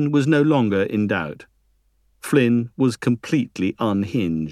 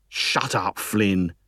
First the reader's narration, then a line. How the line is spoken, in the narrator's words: hissed Green